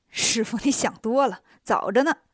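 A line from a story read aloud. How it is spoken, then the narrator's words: Laughing. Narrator (Chinese): 孙悟空笑着说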